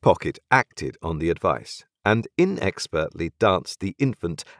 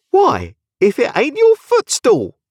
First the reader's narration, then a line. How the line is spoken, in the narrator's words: cried Flopsom